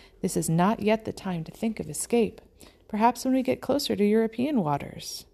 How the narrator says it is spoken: said calmly

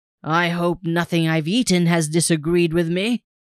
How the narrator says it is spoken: he exclaimed

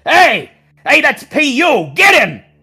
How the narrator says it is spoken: he shouts

